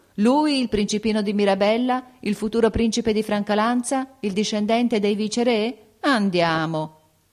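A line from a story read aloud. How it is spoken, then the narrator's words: Incredulous laughing exclamation. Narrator (Italian): ridevano di incredulità, esclamando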